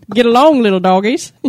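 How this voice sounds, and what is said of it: Put-on Texas accent. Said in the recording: “How's your Texas accent”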